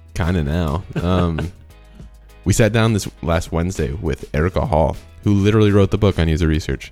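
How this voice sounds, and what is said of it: Sick-sounding voice. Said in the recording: “I'm very sick right now, so this is my sick voice.”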